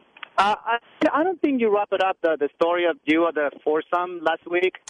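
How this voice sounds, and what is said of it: Thick foreign accent. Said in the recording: “Your thick foreign accent is not allowing me to understand exactly what you're saying.”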